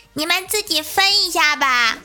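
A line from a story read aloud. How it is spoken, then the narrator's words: Old man laughing heartily. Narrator (Chinese): 旁边的老和尚笑得木鱼都敲乱了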